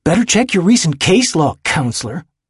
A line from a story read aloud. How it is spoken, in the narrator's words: Andy hisses back at him